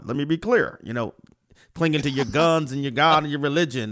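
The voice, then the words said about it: Imitates another person's voice. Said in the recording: “That was a good imitation.”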